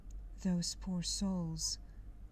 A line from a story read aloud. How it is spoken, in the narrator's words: said with a sigh